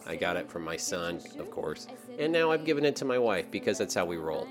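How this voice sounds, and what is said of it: Stuffy, sick-sounding voice. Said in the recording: “we have a killer cold that is running through the Green household, and you can probably tell from my voice, I am just now getting better.”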